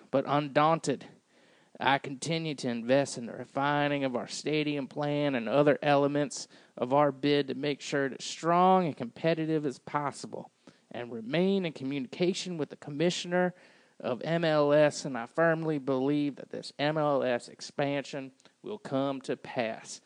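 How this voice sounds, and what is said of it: Imitates another person's voice. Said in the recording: “That sounds exactly like Bill Edwards. That's how he talks, by the way. So that was a really good impression.”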